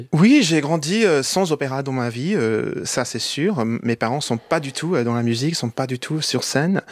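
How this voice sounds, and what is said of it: Slight American accent in French. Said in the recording (French): “vous parlez parfaitement français, on entend une pointe d'accent américain”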